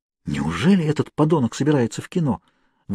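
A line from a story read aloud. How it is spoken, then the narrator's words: Excited whisper. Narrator (Russian): возбужденно прошептала Кейт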